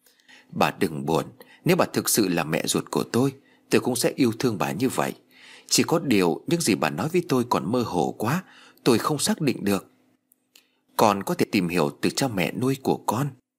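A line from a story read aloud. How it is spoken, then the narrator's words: Gentle sympathetic voice. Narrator (Vietnamese): Liên cảm thấy chạnh lòng, nói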